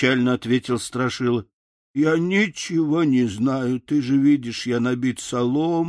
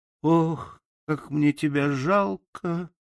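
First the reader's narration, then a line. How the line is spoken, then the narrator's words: Girl's sigh. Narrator (Russian): вздохнула девочка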